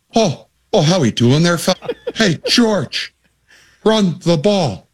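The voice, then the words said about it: Imitates another person's accent. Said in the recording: “He's just a great accent.”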